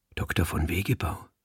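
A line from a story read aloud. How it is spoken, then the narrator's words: Whisper. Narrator (German): flüsterte ich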